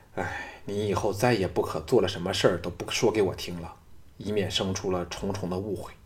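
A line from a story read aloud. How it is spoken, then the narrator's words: Sighing. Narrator (Chinese): 赵牧…叹道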